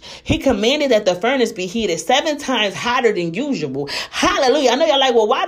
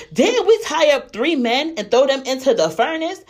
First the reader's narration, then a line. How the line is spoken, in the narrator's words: suddenly, Nebuchadnezzar jumped up in amazement and exclaimed to his advisors